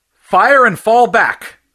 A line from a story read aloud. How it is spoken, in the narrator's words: shouted Fury